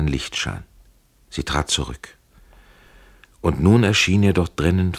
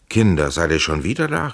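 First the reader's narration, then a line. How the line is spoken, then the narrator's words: Shouted. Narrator (German): rief er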